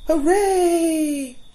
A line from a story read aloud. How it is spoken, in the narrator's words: shouted the fawns delightedly